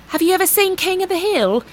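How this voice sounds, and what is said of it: Poor imitation Australian accent. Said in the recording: “that was a terrible Australian accent ... I feel like it was more British”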